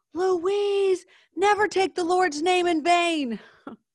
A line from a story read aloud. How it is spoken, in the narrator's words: she'd yell